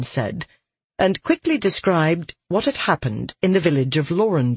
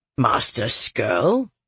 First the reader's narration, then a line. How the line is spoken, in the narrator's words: the other Varanai scoffed